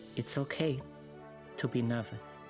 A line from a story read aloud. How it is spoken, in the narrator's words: she just very gently says